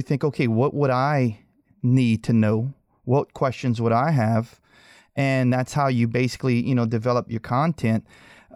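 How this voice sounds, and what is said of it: Thick Cajun accent. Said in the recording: “my thick Cajun accent that I needed, you know, subtitles when I spoke”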